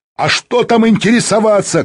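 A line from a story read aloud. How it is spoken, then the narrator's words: Shouting. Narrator (Russian): кричал Азизбеков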